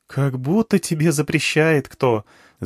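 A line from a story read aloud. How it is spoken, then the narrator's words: Laughing. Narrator (Russian): засмеялась она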